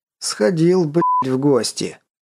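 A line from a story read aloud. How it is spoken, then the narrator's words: Bursting laugh. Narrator (Russian): Не сдержавшись, хохотнул Константин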